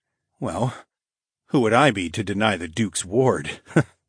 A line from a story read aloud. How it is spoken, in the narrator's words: I chuckled